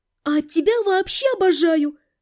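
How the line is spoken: Breathless exhale. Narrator (Russian): выдохнула я

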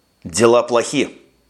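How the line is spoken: Curt, in foreign tongue. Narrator (Russian): отрывисто произнес Макнейл на языке горшечников

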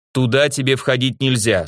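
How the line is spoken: Stern, curt. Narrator (Russian): строго отрезал я

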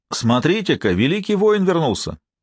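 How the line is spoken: Exclamation. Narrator (Russian): воскликнул Бернард

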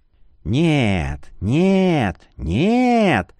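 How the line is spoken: Moaning. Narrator (Russian): Ледорез застонал

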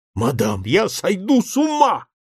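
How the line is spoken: Exclaiming. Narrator (Russian): воскликнул Бэнкс

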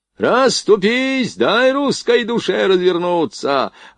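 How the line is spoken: Yelling. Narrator (Russian): орал Блохин

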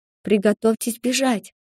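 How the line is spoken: Whisper. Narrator (Russian): шепнула я им

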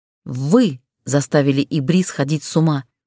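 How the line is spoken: Furious, through clenched teeth. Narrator (Russian): процедила яростно

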